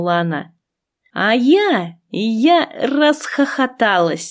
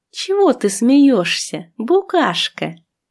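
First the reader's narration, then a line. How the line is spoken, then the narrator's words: Plain. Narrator (Russian): спросила она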